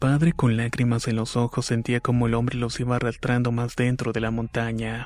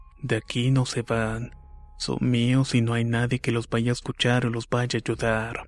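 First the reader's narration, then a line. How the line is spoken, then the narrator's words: Sinister, cruel man's voice. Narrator (Spanish): con una voz macabra y cruel aquel hombre les dijo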